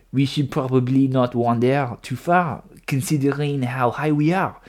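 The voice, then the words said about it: Put-on French accent. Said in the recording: “let me go back to the French accent”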